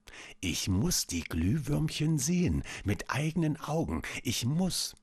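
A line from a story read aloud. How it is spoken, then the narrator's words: Soft whisper to herself. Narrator (German): Leise flüsterte sie vor sich hin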